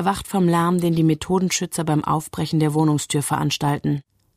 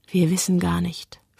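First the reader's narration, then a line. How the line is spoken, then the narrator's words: Whisper. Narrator (German): flüstert sie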